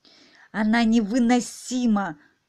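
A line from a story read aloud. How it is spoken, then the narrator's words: Hissed. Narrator (Russian): зашипела королева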